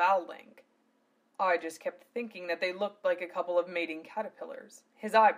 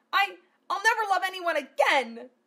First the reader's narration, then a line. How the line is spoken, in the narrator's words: Martina wailed crying